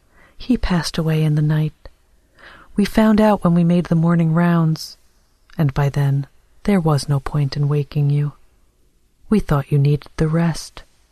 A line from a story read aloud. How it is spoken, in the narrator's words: A nurse said kindly